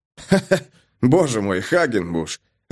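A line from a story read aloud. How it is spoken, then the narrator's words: Laughing. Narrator (Russian): рассмеялся я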